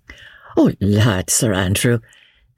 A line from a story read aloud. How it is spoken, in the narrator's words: said Marguerite, with one of her merry infectious laughs